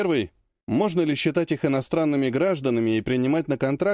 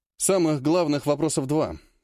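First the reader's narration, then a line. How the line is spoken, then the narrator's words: Plain. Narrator (Russian): сказал Сергей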